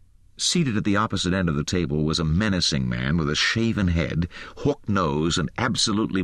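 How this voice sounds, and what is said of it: Usual voice. Nothing is said of it.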